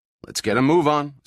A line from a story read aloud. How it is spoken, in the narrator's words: said Al